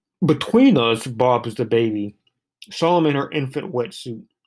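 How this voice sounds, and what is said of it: Reads poem in put-on accent. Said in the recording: “I'm trying to do a little bit of accent with these”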